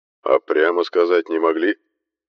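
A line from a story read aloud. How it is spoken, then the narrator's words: Displeased grumble. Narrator (Russian): Недовольно пробурчал Дархон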